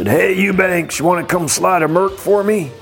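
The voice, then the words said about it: Impression of Terry Leonard. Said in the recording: “that was a Terry Leonard impersonation, not even a very good one... I didn't do it justice... imitating Terry Leonard because he talks like this”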